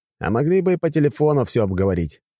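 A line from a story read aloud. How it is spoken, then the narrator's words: Snort. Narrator (Russian): фыркнул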